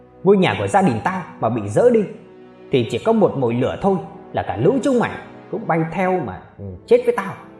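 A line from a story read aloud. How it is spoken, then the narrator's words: Man screaming desperately. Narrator (Vietnamese): Bác Lê trai gào lên với đội cảnh sát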